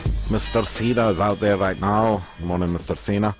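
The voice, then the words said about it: Poor put-on Scottish accent. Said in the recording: “That is the worst Scottish accent I've ever heard ... I have a terrible Scottish accent”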